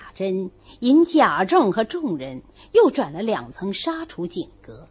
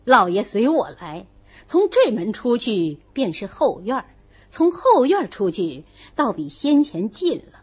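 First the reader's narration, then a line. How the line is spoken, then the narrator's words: Laughing. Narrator (Chinese): 贾珍笑道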